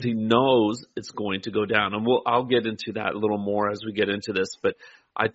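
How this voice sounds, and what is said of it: Usual voice. Nothing is said of it.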